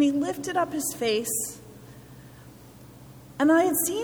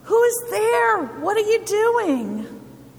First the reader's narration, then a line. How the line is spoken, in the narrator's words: I yelled down